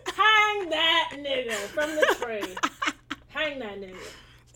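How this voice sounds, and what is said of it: Imitates a cartoon character's voice. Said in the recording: “That was a perfect impression. ... I'm really getting better at these impressions. ... Uncle Ruckus, you in here?”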